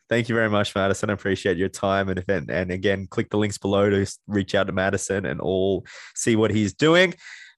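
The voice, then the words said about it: Mixed Australian and American accent. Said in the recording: “my accent is Aussie and American at the same time”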